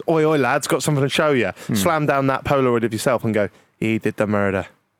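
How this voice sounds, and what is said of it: Put-on Irish accent. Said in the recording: “Was that an Irish accent? ... Yeah”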